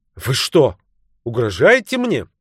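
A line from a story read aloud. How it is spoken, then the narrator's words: Sharp irritated retort. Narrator (Russian): раздраженно вспыхнув, резко бросил Стрэндж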